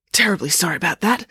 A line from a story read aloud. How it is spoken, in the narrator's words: said the parachutist in a husky voice